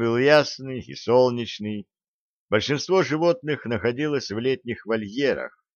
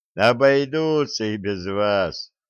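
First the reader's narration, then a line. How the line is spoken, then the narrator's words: Laughing reply. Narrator (Russian): смеясь, ответил Лебедев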